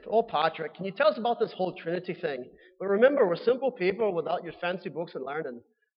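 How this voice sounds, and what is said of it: Bad put-on Irish accent. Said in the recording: “my terrible Irish accent.”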